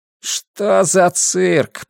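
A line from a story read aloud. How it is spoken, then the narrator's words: Strained groan. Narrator (Russian): простонал Хаб, только что начавший поднимать мсье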